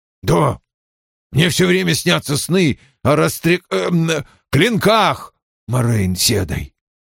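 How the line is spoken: Tense voice. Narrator (Russian): отвечал он напряженным голосом

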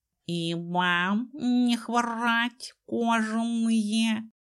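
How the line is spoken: Purring playful inner voice. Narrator (Russian): Услышали Дезмонд и Ума внутренним слухом мурлыкающий задорный голос

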